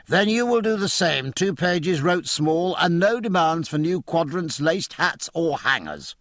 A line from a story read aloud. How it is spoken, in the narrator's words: said Jack